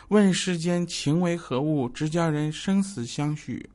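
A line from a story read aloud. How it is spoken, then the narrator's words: Sighing exclamation. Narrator (Chinese): 感叹呢，说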